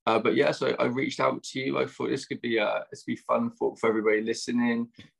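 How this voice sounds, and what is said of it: Strong British accent. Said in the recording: “get ready for his accent ... the British accent probably sounding really strong to you now”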